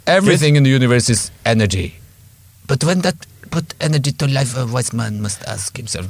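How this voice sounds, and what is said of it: Imitates Albert Einstein's voice. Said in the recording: “That's how Albert Einstein spoke. That's my Albert Einstein impersonation.”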